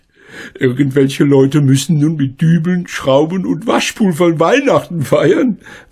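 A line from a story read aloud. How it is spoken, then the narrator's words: Laughing. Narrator (German): lachte Frau Schmidt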